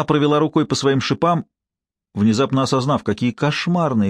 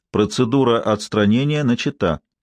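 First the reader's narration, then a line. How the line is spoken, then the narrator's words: Calm electronic announcement. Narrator (Russian): электронный голос спокойно объявил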